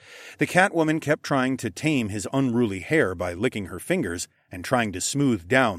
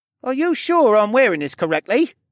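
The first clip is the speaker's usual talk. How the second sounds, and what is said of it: Slightly whiny character voice. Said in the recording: “slightly whiny voice”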